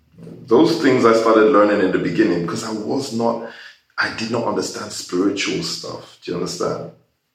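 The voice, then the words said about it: Mixed American, British and Nigerian accent. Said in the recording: “you can hear from my accent and the way I talk, I've just been everywhere ... it sounds American ... it sounds British ... it sounds Nigerian”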